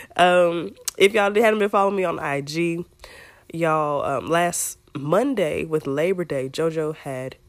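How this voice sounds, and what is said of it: Low husky voice. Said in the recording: “my voice is a little, yeah. I'm very Toni Braxton-ish today”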